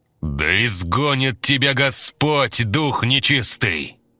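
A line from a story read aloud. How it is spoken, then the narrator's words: Loud. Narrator (Russian): Громко произнес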